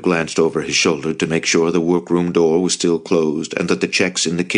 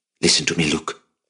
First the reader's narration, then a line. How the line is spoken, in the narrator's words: whispered